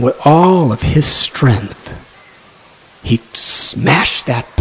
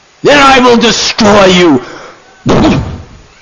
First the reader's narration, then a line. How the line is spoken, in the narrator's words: Madhai, in a fury of anger, roared